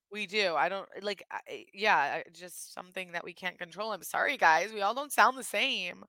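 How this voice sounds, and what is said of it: Michigan accent with stretched vowels. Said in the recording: “you guys, like, extend all your words and your A's sound off. In Michigan, it's called, like, Michigan A's. And we all sound like this in Michigan ... you have an accent ... some people think we sound like Valley Girls”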